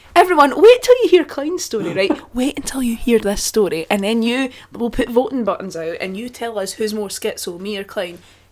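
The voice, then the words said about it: Shouting into the mic. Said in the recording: “I'm shouting into the mic now”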